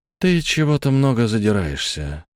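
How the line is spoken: Grumbling. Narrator (Russian): пробурчал один из отдыхающих

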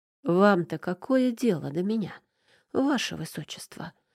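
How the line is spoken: Quiet distrustful question. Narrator (Russian): спросила у него негромко, потому что ни на секунду не поверила сочувственному взгляду

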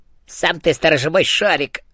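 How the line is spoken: Snapped back. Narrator (Russian): огрызнулся Эразм

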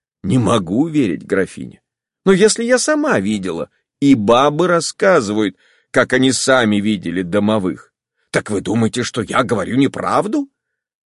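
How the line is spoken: Joyless laugh. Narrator (Russian): она невесело засмеялась

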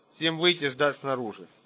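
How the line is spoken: Low hard voice. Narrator (Russian): Генерал сказал низким жестким голосом

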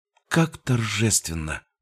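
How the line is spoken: Whispered. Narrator (Russian): прошептала она

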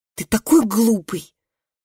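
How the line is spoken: Angry, disappointed sobbing. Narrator (Russian): Разрыдавшись от гнева и разочарования

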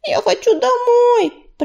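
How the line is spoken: Frightened child's squeak. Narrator (Russian): пропищал один из золоцветиковых малышей, тараща круглые от страха глазенки

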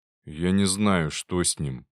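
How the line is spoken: Grumbling. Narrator (Russian): буркнул тот

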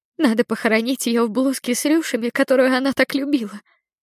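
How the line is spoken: Sobbing, resolute mother. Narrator (Russian): всхлипнув, решительно заключит моя мать

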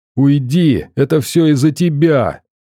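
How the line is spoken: Sudden scream. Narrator (Russian): вдруг закричала она

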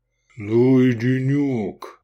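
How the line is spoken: Deep bass voice. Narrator (Russian): пробасил Гефестай

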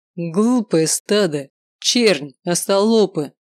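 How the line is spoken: Furious roar. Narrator (Russian): Проревел рассверепевший Глоуд

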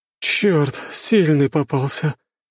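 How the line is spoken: Groan. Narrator (Russian): простонала Надежда

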